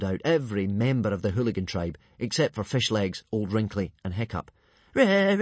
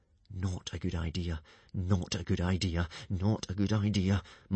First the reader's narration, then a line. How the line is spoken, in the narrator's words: muttered Hiccup